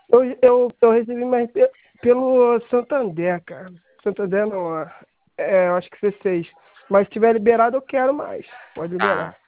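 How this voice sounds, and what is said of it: Carioca Brazilian Portuguese accent. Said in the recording (Portuguese): “O senhor é carioca, né? ... dá pra perceber no sotaque.”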